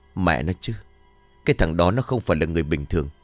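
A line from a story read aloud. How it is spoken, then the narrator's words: Muttering. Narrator (Vietnamese): ông ta lẩm bẩm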